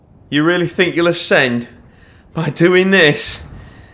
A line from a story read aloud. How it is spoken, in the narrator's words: Nia shouted